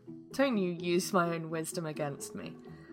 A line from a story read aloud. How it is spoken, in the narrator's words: Carsey giggled